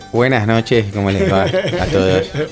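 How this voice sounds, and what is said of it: Radio announcer voice. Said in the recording (Spanish): “nuestra voz de locutor ... El que está hablando ahí con esa voz de locutor”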